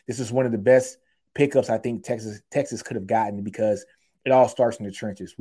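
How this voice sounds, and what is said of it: Excited, energetic speaking voice. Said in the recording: “If you can't hear it in my voice, I'm excited about this, man.”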